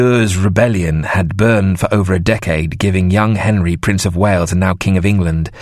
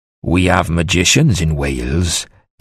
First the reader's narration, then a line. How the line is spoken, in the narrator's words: Dafydd ap Trychan lowered his voice